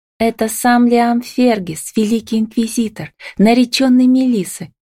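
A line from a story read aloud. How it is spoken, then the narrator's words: Whispering from behind. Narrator (Russian): слышится перешептывание за моей спиной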